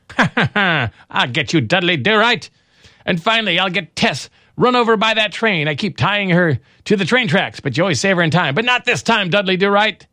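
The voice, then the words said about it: Cartoon villain character voice. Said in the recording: “terrible Snidely Whiplash imitation”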